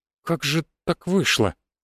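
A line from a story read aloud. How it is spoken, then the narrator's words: Bewildered. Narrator (Russian): растерянно проговорила она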